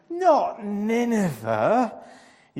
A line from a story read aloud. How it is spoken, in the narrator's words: he groaned